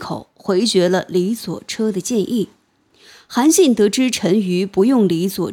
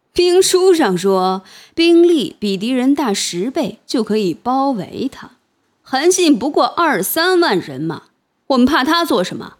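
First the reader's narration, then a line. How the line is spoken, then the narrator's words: Laughing. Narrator (Chinese): 陈馀笑道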